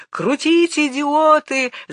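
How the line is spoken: Director yelling. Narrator (Russian): заорал режиссер

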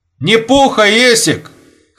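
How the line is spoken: Shouted after someone. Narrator (Russian): крикнул вдогонку шноговняк

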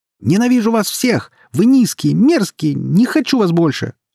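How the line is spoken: Receding yell. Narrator (Russian): орал Май, уже удаляясь в свою комнату

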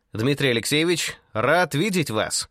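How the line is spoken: Cheerful, brisk. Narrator (Russian): бодрым голосом возвестил Рогожин

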